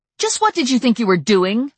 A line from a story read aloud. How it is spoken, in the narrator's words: I yelled at him, raising my voice over the passing cars